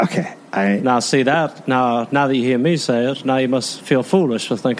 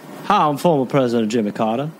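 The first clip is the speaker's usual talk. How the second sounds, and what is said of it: Jimmy Carter impression. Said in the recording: “I will do an impression of uh, uh, Jimmy for you.”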